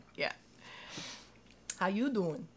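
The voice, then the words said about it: Put-on New York accent. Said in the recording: “when I try to do a northern accent, particularly New York style, it makes him oh so sad”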